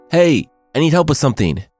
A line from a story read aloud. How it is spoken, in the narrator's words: she yelled up to the mother and daughter